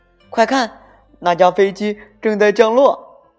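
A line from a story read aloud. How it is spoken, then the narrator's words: Sudden excited shout. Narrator (Chinese): 突然，托马斯兴奋地叫道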